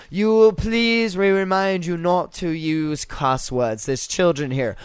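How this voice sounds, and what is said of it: Fake British accent. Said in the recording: “Her fake fucking bullshit British accent.”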